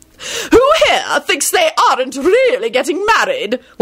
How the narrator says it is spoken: Lady Fanshawe screeched

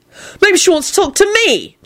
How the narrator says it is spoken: Jamie shouted back

